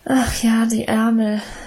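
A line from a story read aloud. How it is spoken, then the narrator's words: Sigh. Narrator (German): seufzte Emma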